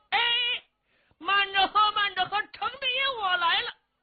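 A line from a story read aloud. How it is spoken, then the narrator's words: Loud booming shout. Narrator (Chinese): 有一个人喊着 这大嗓门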